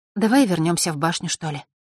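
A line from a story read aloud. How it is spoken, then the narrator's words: Sighed. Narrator (Russian): вздохнула она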